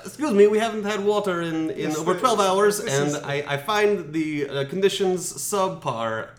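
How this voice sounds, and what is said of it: Norwegian accent. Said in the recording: “flawless Norwegian accent... He was saying it in an Italian accent, in English, in a Norwegian accent.”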